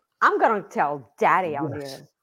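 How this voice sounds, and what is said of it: Valley Girl voice. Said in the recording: “This is like the obnoxious girl talk. ... the way you're doing it right now. Whatever you're doing right now. ... Okay, there you go. That's Valley Girl.”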